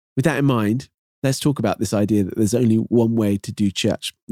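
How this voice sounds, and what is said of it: British accent, slightly Canadian-tinged. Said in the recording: “this British accent ... possibly starting to turn a little bit more Canadian accent, but hopefully still British enough that it's not distracting”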